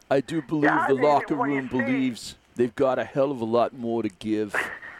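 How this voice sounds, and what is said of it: Impression of Brett Brown. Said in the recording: “That's pretty good, huh? you're good. You got a future in this impersonation business ... doing their best impressions of local sports heroes ... his Brett Brown”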